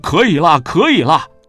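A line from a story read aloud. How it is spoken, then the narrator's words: Vendor crying out. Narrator (Chinese): 摊主叫了起来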